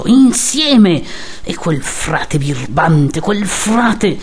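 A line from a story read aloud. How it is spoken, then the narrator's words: Choked broken speech. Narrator (Italian): La parola gli usciva arrantolata dalla gola, smozzicata tra i denti che mordevano il dito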